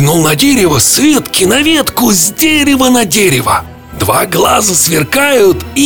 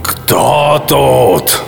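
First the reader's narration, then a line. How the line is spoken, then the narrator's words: Growling creature. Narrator (Russian): зарычал караймок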